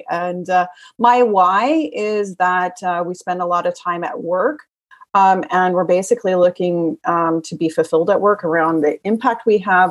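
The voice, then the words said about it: American accent. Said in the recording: “the American accent here in Germany”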